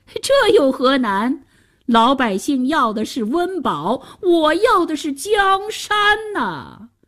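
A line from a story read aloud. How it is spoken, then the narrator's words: Emperor laughing. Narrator (Chinese): 皇上笑了起来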